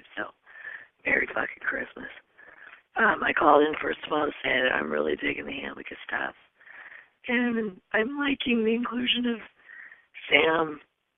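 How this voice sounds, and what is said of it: Hoarse, blown-out voice. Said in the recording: “I know I sound fucking terrible... my voice is blown”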